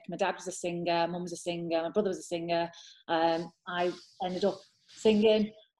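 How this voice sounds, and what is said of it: Liverpool accent. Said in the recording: “I probably recognise the accent. I'm from Liverpool.”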